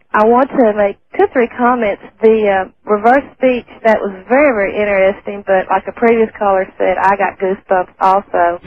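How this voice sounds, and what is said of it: Tennessee Southern US accent. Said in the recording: “I like your accent”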